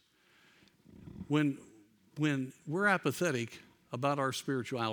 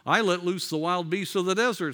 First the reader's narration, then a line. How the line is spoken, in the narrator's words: said one